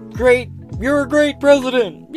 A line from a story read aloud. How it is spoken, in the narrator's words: I yell